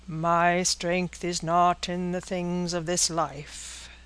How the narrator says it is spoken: said the divine, speaking in a hollow, sepulchral voice

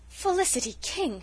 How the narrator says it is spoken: she exclaimed

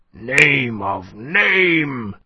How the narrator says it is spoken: he groaned

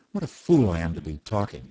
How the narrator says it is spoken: he said

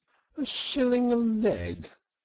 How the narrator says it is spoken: cried Toad

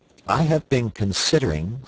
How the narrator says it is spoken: said he

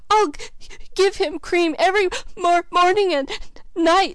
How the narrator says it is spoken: sobbed Felicity

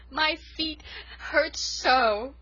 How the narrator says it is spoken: sobbed Rilla, clinging to the last shred of her pride

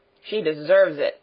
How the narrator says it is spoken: growled Peter

